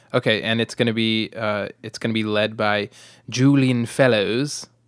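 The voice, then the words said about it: Put-on British accent. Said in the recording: “my British accent ... That was very good.”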